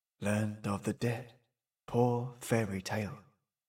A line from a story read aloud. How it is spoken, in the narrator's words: he murmured